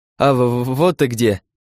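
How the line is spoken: Forced out with difficulty. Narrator (Russian): Кое-как выдавил Славка

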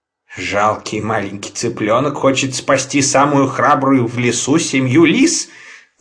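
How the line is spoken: Laughing. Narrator (Russian): засмеялся папа Ларсон

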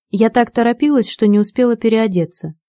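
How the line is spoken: Plain. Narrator (Russian): сказала вошедшая

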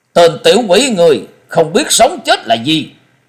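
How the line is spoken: Angry shout in unison. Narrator (Vietnamese): Năm lão đồng thanh phẫn nộ quát lớn

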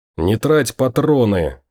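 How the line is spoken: Growling through teeth, breathless. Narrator (Russian): сквозь зубы прорычал Том, который всеми силами старался не сбить дыхание

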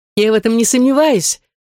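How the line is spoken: Tender laughter. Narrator (Russian): засмеялась Нина с нежностью

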